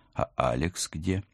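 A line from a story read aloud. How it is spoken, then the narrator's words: Quiet, sputtering question. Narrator (Russian): Тихо отплевалась и первым делом спросила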